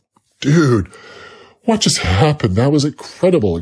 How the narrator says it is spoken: exclaimed Joey

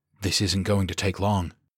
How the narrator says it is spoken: he muttered

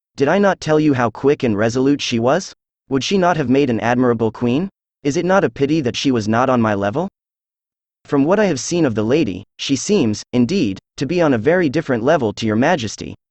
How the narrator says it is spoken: said Holmes coldly

